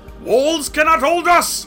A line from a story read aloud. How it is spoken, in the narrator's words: roared his green head